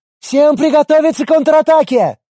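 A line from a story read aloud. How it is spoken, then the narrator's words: Yelling. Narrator (Russian): заорал Арин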